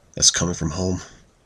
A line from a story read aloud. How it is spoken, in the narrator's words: He mumbled under his breath